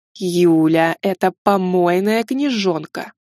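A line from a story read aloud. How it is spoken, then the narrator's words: Spoken through clenched teeth. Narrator (Russian): процедила завуч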